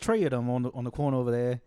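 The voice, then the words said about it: Put-on Irish accent. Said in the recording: “this guy's Irish ... I was like speaking like him ... accent caught on ... when he says uh three or, or something like that, he says tree”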